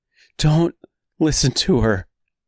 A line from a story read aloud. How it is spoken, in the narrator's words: said Dorothy number two, pleadingly